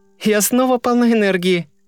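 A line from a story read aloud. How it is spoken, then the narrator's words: Laughing. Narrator (Russian): засмеялась она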